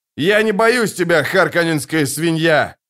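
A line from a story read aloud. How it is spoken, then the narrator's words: Shouting. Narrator (Russian): крикнул гладиатор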